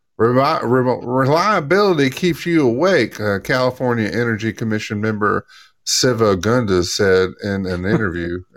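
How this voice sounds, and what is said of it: Quote read in put-on accent. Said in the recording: “probably didn't speak with that kind of accent, but I felt it appropriate”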